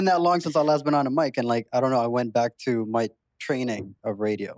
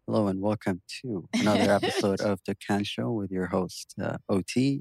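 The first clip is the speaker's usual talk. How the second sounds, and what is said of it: Late-night DJ radio presenter voice. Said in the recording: “radio presenter ... late night DJ radio voice ... that voice”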